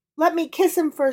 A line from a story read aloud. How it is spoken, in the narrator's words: she pleaded